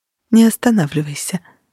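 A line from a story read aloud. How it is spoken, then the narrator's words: Breathed out. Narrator (Russian): выдохнула она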